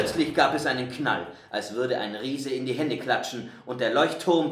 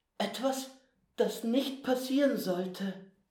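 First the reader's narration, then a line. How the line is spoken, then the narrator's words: Quiet. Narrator (German): sagte leise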